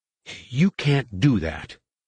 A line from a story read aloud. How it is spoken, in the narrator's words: Shesh, who began to stammer